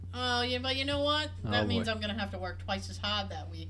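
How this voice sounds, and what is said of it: Boston accent. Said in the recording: “I just totally heard my Boston accent punch me in the throat right then”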